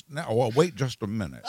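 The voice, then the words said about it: Imitates another person's voice. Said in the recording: “the first impression that I've ever heard you do ... It was a good Jimmy Stewart impression.”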